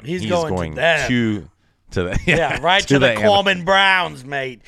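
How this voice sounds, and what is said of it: Bad Australian accent impression. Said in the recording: “I'm doing the worst impression,”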